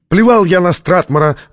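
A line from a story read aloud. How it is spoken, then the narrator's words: Loud echoing shout. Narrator (Russian): закричал Чатрукьян, и его слова громким эхом разнеслись по шифровалке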